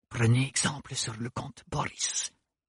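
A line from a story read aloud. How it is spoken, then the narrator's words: Whisper. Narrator (French): lui chuchota Bérénilde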